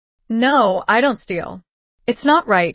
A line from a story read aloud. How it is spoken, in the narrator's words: said firmly